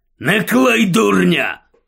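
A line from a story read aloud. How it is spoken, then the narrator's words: Snapping. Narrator (Ukrainian): гаркнув Муді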